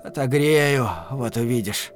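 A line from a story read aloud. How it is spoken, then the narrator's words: Dull muttering. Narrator (Russian): пробормотав глухо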